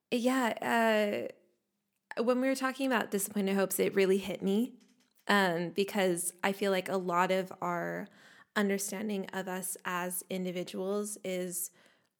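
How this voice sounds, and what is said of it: Hoarse, froggy voice. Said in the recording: “my voice is a little froggy today”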